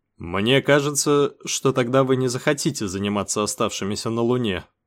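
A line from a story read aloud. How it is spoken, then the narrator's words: Plain. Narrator (Russian): сказал я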